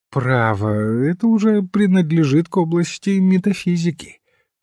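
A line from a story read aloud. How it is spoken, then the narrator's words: Bored voice. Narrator (Russian): произнес церковнослужитель скучающим голосом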